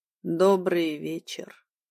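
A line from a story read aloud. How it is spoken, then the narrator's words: Even-voiced greeting. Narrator (Russian): ровным голосом поздоровался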